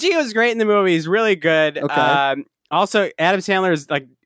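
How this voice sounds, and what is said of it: Usual voice. Nothing is said of it.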